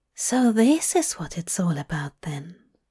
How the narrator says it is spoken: murmured

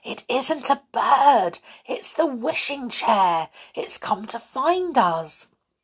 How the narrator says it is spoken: whispered as loudly as she dared

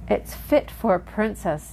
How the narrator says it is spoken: exclaimed when she saw it

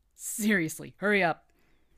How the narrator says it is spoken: barked

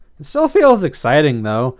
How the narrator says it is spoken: Blythe giggled

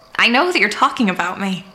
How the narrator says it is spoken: I snapped in Rhizane, so tired of language being used as a weapon

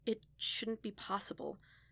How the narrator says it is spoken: said softly

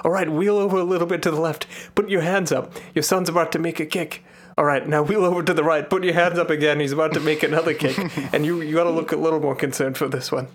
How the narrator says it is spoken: It's like a director yelling at him

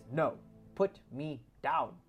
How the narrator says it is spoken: she sternly says

